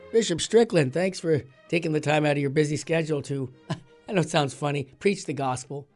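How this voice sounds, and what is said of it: Raspy voice. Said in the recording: “My voice is a little raspy because I've got a little bit of a cold”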